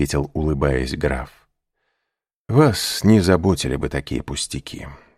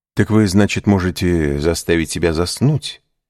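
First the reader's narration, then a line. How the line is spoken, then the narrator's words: Plain question. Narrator (Russian): спросил Моррель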